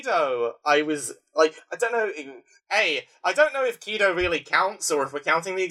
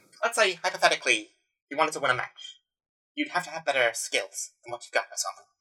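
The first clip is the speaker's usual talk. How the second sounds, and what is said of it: Imitates another person's voice. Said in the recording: “Can you do a Ben Shapiro voice? ... Perfect.”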